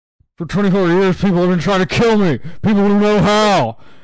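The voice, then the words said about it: Angry impression of a film character. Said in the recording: “my Gust Avrakotos impression ... This is him when he's angry”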